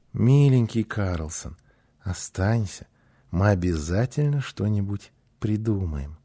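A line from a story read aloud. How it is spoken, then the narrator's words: Joyful, gentle pleading. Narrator (Russian): Гунила с радостью ласково попросила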